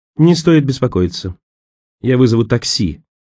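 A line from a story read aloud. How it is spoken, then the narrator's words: Icy reply. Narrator (Russian): ответила она ледяным тоном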